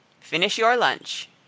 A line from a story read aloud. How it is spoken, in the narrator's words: she said